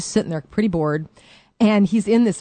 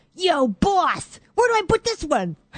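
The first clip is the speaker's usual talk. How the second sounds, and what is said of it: New York accent. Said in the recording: “he's talking in a New York accent”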